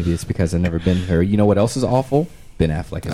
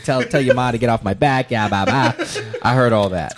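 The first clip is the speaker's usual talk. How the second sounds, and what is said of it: Poor put-on Boston accent. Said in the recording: “Your Boston accent is awful”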